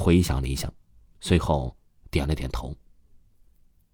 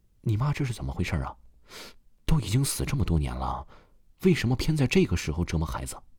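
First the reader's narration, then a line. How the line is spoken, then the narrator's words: Sighing. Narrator (Chinese): 父亲叹了一口气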